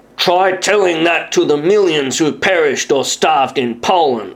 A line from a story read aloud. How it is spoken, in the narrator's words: snapped the professor